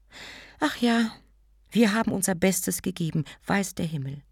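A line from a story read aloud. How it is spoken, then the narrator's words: Sighing. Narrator (German): seufzte sie ein wenig und sagte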